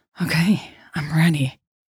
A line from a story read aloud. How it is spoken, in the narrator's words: Jade said breathlessly